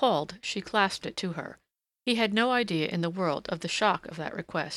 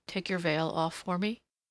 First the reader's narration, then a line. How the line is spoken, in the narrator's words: he said softly